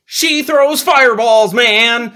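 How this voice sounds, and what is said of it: Shaggy cartoon character voice. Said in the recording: “that's your Shaggy impersonation.”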